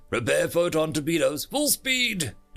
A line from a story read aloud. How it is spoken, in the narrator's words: Delta barked